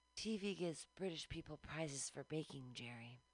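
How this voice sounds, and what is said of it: Imitates another person's voice. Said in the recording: “That is my impression of Susan Sarandon.”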